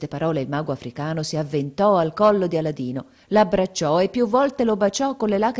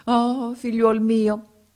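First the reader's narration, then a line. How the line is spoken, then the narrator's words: Magician exclaiming. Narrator (Italian): esclamò il mago africano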